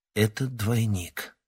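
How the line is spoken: Quiet. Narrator (Russian): тихо произнес Панкрат

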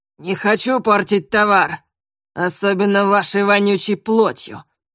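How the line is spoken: Sudden loud shout. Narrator (Russian): Вдруг громко закричал капитан

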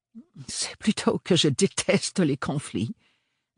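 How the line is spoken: Embarrassed mumbling. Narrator (French): bredouilla-t-il avec un sourire gêné

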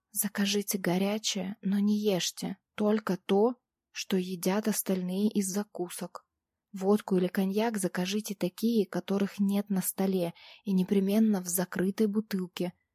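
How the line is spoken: Quick whisper in ear. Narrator (Russian): быстро прошептала я ему в самое ухо

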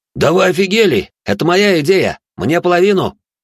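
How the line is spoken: Yelling. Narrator (Russian): орал Максимус

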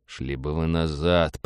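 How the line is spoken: Muttered. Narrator (Russian): пробормотал Роджер

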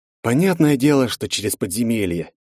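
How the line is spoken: Heavy sigh. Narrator (Russian): тяжело вздохнул Андрей

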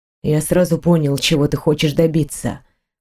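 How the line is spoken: Calm reply. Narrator (Russian): ответил он спокойно

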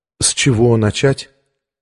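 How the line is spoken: Calm female question. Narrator (Russian): спросила она совершенно спокойно

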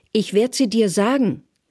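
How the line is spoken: Bellowing. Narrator (German): Der Denunziant beginnt zu brüllen

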